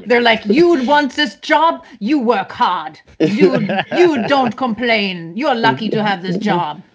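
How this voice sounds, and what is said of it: Put-on German accent. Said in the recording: “That's my really bad German accent. ... You have a good, German accent. ... you have a poor German accent”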